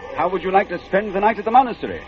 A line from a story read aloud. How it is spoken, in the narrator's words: shouted the monk